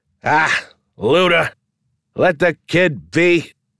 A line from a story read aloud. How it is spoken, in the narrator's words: One of the patrons, a regular, shouted